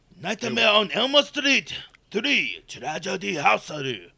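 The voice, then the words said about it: Put-on Japanese accent. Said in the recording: “can I do a Japanese accent? ... You sound like Shredder's right-hand man from TMNT. ... Your Japanese is very good.”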